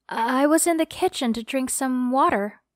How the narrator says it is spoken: In a shaky voice, I replied

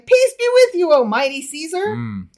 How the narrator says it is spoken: he returned and cried

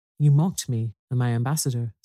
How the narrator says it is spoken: said the king

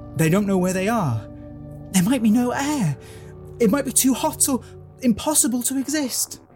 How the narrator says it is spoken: Susan cries

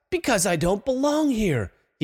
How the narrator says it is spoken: he hissed

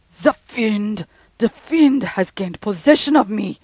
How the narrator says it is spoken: he shrieked

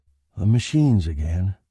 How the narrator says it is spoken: he said wearily

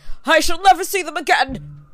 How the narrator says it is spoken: he cried

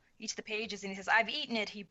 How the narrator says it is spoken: he breathed

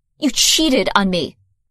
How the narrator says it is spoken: spat

